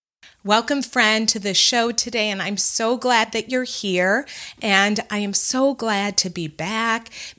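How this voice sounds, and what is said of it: Hoarse voice recovering from illness. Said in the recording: “Maybe you can tell a little bit that my voice is not like it normally is. I have had the flu ... my voice isn't 100% back”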